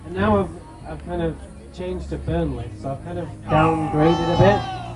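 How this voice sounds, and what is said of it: Manchester English accent. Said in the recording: “I detect an accent ... from Manchester, England.”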